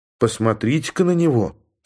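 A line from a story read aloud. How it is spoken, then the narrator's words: Calm woman. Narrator (Russian): спокойно заметила женщина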